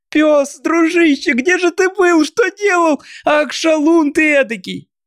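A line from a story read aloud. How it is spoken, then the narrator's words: Crying, laughing, joyful shouting. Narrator (Russian): Плача и смеясь, Мартин кричал от радости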